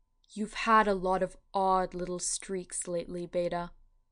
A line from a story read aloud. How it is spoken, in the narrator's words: he said